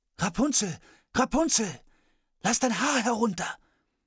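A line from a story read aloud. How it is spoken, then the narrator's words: Calling out. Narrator (German): der Königssohn rief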